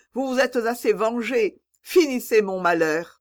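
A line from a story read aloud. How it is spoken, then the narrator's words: Exclamation. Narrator (French): s'écria Blanche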